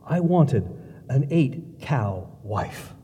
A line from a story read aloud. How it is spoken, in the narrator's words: finished softly